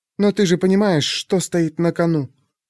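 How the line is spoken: Barely audible whisper. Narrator (Russian): Еле слышно прошептала

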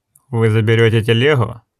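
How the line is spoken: Young man's angry question. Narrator (Russian): сердито спросил Мок, младший сын трактирщика

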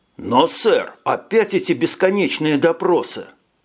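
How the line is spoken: Exclaiming, sobering up. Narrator (Russian): воскликнул Марсель, окончательно трезвея

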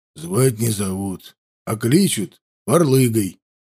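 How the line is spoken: Grumbled. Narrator (Russian): буркнул тот

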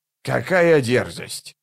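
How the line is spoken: Grumbling. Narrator (Russian): проворчал он

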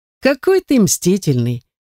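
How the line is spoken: Laughing young man. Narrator (Russian): засмеялся незнакомый мне парень

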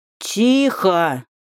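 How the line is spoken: Growled. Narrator (Russian): прорычал тролль

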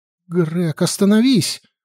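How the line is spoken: Exclamation. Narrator (Russian): воскликнула

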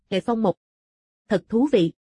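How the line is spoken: Cold laugh. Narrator (Vietnamese): Ngân Bất Vi ... lạnh lùng cười

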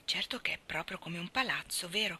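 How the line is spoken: Whisper. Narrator (Italian): bisbigliò

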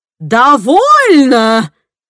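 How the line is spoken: Roar. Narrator (Russian): взревел Генри

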